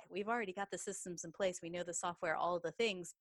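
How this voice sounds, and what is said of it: Texas accent. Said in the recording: “as you can tell from my accent, I am a Texas girl”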